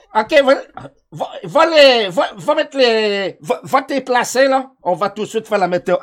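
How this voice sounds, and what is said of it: Haitian French accent. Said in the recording (French): “j'ai mon accent haïtien qui embarque ... il croit qu'il pogné un peu la, euh, l'accent”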